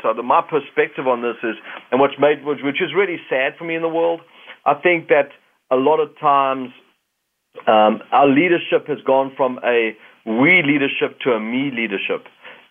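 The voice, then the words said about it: South African accent. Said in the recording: “not with this accent. People think this is a Canadian accent. ... Being a South African that's now a Canadian”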